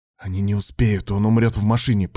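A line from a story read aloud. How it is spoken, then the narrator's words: Hissed. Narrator (Russian): прошипел Илья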